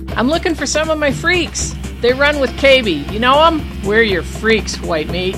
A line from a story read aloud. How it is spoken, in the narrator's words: yelled over the music